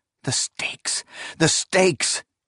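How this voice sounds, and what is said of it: Cries out in a breaking voice. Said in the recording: “He cried in a breaking voice.”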